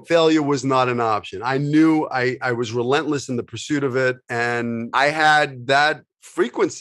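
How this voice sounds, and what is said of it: New York accent. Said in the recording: “I have a, a you know New York accent”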